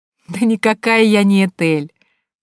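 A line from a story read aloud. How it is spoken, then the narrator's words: Laughing speech. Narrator (Russian): сквозь смех проговорила она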